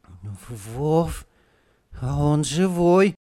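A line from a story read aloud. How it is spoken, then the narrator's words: Sudden plaintive voice. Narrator (Russian): вдруг жалобно сказал Петька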